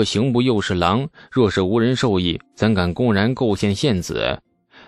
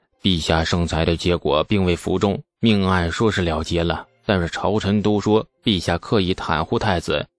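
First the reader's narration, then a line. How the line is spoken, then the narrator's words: Hesitant whisper. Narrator (Chinese): 犹豫了一下，程楚墨……凑在李素耳边轻声的说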